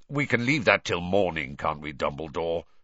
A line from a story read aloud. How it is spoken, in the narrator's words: said Sirius, harshly